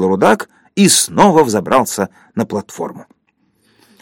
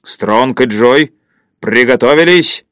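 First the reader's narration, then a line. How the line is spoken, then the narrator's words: Booming voice. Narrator (Russian): громовым голосом сказал рудак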